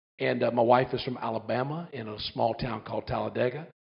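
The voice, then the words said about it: Southern American accent. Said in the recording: “My accent is a little bit funny... I'm originally from South Carolina, born and raised.”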